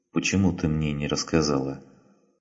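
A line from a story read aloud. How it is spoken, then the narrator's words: Quiet question. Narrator (Russian): Филипп тихонько спросил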